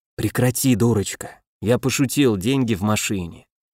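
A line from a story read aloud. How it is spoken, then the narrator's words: Conciliatory whisper. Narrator (Russian): примирительно шепнув на ухо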